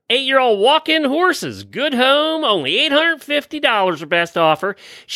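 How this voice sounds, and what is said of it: Put-on Southern American accent. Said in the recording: “Have your southern accent”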